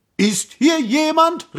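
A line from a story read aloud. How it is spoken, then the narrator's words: Prince calling out. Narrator (German): rief der Prinz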